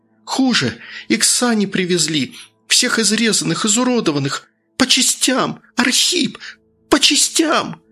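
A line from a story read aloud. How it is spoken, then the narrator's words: Breaking into a scream. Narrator (Russian): Сорвавшись на крик, Дарья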